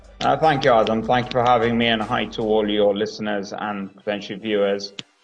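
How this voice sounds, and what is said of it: Speaks with a noticeable foreign accent. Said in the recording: “a way cooler accent than I can ever hope to have”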